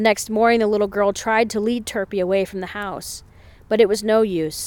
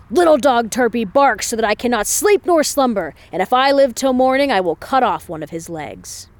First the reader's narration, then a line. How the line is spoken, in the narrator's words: the old man woke and shouted